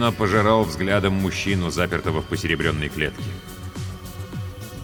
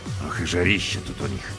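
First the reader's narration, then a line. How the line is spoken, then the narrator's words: Grumbling. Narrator (Russian): проворчал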